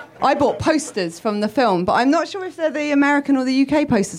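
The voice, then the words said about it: British accent. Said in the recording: “I'm British”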